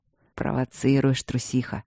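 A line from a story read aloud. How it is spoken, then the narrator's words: Low husky voice. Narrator (Russian): Его хрипловатый голос так понизился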